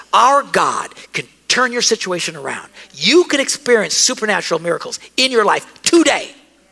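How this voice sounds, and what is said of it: Loud yelling preaching voice. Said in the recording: “enough yelling”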